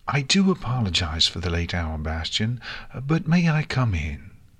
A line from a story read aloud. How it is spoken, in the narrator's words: Celestia asked sweetly